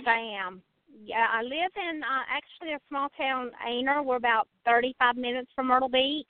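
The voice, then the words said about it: Noticeable regional accent. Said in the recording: “I love your accent. Oh, adorable.”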